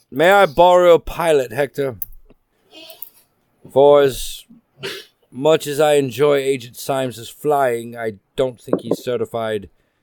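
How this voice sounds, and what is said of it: Put-on alien accent. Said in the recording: “Russian sounds incredibly like Scottish ... Everyone likes the accent. It's an alien accent.”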